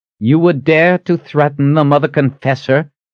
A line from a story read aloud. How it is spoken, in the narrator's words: called out